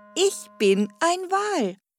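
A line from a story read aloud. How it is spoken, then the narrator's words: Laughing. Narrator (German): lachte er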